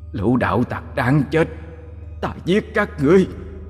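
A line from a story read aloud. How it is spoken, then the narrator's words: Angry yell. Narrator (Vietnamese): Nó giận dữ gào lên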